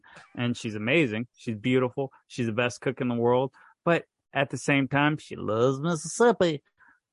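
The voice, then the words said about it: Put-on Mississippi accent. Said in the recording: “I like the accent. That was pretty close to a Mississippi accent. ... I've got the Mississippi accent”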